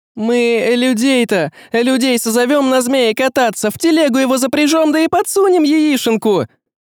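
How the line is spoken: Shrill girl's suggestion. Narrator (Russian): Визгливо предложила девица с козьими рогами

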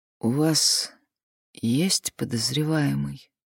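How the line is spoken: Lifeless voice. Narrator (Russian): спросила безжизненным голосом

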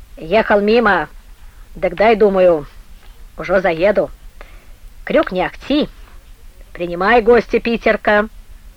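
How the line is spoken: Nearly shouted, angry, questioning. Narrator (Russian): Последние слова Крень почти выкрикнул, вопросительно и зло

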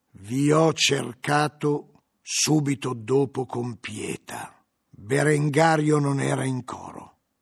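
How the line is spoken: Slow, stern voice. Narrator (Italian): L'abate disse con voce lenta e severa

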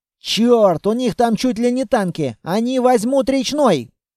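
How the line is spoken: Frantic screaming. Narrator (Russian): колонист уже истошно вопил

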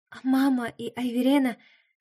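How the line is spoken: Trembling-voiced question. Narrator (Russian): спросила я дрожащим голосом

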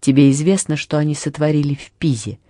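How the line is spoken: Plain. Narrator (Russian): спросил я

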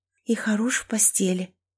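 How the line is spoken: Whisper, then gasping breath. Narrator (Russian): прошептала она и судорожно втянула воздух

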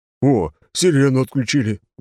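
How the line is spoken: Exclaiming man. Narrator (Russian): воскликнул чернокожий

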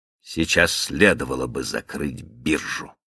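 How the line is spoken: Gruff grumble. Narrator (Russian): буркнул Каупервуд

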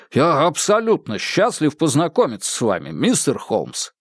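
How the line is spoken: Exclaiming. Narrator (Russian): Харрисон воскликнул

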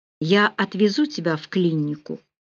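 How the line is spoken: Softer than usual. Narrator (Russian): более мягко, чем обычно, произнес Рауль

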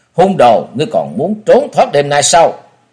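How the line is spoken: Shouting. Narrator (Vietnamese): Miệng quát

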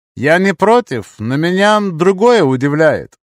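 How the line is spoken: Thoughtful. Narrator (Russian): задумчиво сказал я

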